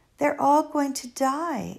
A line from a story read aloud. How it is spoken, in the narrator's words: exclaimed Flora